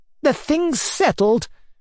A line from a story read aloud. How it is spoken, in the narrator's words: cried